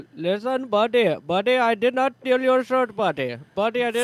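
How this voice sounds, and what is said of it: Put-on Indian accent. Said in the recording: “please do the Indian accent.”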